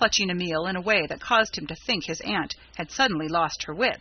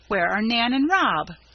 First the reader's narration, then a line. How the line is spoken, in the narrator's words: cried Mrs